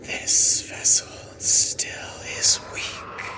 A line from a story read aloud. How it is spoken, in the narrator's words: it comes and hisses in your face and says